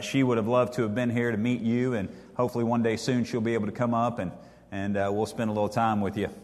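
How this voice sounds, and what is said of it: East Texas Southern accent. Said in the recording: “I grew up in Deep East Texas. I'm sure you're shocked by my accent.”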